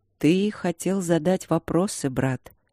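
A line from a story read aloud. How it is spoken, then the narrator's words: Soft, quiet old man. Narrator (Russian): мягко и тихо сказал старый служитель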